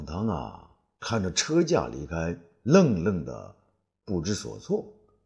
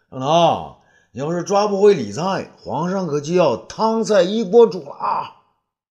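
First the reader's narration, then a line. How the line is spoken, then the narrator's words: Shouting while riding. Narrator (Chinese): 他一边纵马一边叫道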